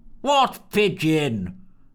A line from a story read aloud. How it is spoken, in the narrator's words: bellowed Smeggerton, a man whose volume attenuation seemed permanently on the blink